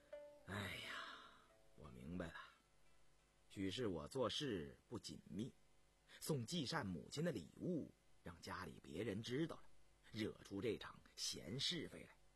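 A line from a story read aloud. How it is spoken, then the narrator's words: Sighing. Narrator (Chinese): 红丽叹了一口气说道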